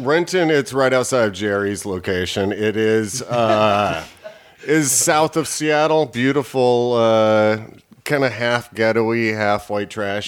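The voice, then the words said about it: Southern American accent. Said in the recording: “I got a southern accent.”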